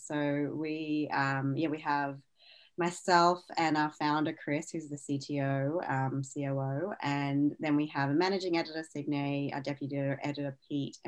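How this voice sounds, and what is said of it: Australian accent. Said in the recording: “as you can tell from my accent, I'm in Australia.”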